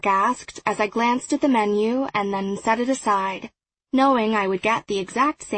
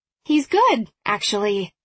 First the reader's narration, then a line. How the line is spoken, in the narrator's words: I said, making my voice much more upbeat than I was currently feeling